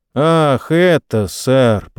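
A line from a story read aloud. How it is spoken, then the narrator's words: Drawl. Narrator (Russian): протянул рыжий Джон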